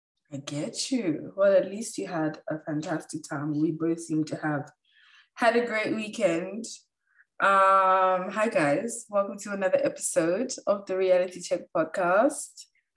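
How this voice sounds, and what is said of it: Sick-sounding voice. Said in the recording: “As you guys can hear from my voice, I am in the trenches ... a continuation of the sick edition”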